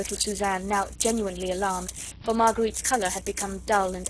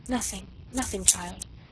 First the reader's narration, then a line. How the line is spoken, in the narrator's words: she murmured as in a dream